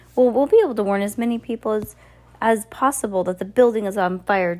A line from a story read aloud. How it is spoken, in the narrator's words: Justice Strauss cried